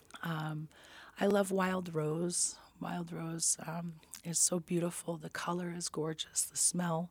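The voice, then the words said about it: Hoarse, weakened voice. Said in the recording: “As you can hear, I lost my voice a couple weeks ago ... I'll give your voice a break”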